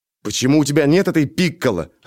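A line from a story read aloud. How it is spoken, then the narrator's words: Irritated shrill squeal. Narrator (Russian): раздраженно проверещал я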